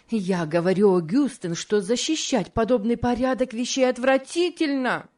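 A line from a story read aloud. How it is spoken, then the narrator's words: Increasingly heated exclamation. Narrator (Russian): воскликнула мисс Офелия с возрастающей горячностью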